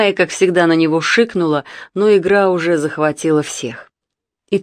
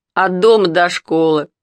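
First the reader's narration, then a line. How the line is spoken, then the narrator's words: Laughing. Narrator (Russian): засмеялся Митя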